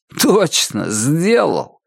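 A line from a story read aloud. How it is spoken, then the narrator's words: Guilty laughter. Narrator (Russian): Лоу расхохотался, вина вызывала у него смех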